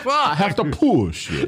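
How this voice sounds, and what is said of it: Count Dracula-like vampire voice. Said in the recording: “Are you fucking Count Dracula? ... that voice you do.”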